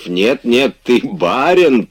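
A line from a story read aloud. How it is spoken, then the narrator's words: Laughing loudly. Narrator (Russian): продолжал с хохотом Штольц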